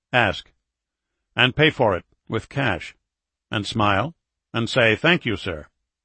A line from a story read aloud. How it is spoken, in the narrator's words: Edward said